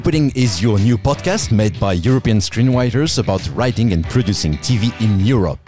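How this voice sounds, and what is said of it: French-accented English. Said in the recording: “I'm a French writer based in Berlin. I'm very sorry for my weird accent.”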